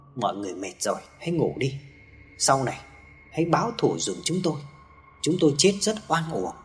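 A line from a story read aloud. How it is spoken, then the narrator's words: Soft, cold, breeze-like whisper. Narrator (Vietnamese): phát ra âm thanh nhỏ nhẹ như làn gió thoảng qua rất lạnh lẽo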